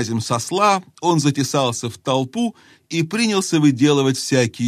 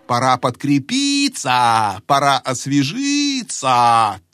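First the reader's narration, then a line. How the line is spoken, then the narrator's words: Old man's repeated shouting. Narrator (Russian): То и дело кричал старый толстяк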